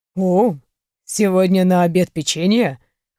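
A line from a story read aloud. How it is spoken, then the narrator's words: Smirking snort from aside. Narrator (Russian): хмыкнули сбоку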